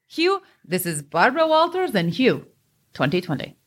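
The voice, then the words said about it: Imitated newscaster voice, dropped R's. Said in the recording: “What accent is that? ... she doesn't say her R's”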